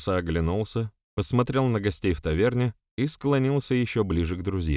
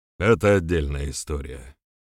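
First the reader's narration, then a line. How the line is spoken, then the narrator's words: Sigh. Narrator (Russian): вздохнул Тасса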